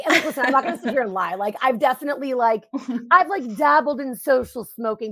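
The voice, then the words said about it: Smoker-sounding party girl voice. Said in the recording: “how many packs of cigarettes do you smoke a day?... everybody like kind of attributes my voice to that. It's like the ultimate party girl voice.”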